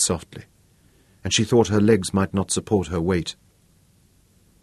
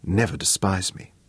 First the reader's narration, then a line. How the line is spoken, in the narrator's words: said quietly